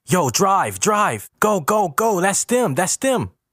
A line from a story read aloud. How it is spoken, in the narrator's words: Qualis and Bessie yelling